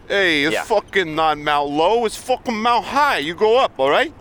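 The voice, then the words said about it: Put-on East Coast American accent. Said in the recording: “you do your where East Coast impersonation ... My East Coast?”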